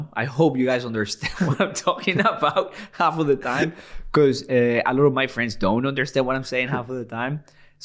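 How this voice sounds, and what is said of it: Noticeable foreign accent. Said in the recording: “A lot of people have had to get used to my accent”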